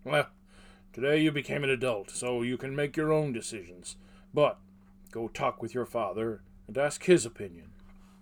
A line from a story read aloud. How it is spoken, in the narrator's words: The smith chuckled at the look and said